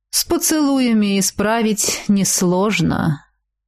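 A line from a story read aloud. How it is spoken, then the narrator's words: Thoughtful. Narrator (Russian): задумчиво продолжал Сакс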